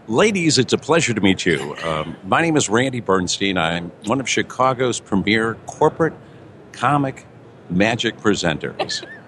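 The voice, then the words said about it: Polished radio voice. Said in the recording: “you have a radio voice. My goodness.”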